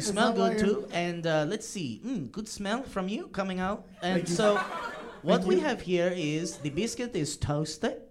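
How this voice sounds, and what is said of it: Made-up put-on accent. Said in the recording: “I feel like you're making up your accent”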